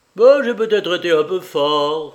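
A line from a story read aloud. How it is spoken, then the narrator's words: Cynical exclamation. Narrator (French): s'écria cyniquement Tony Fowler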